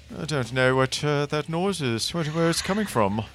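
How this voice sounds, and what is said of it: Put-on British accent. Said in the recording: “Now that in a British accent.”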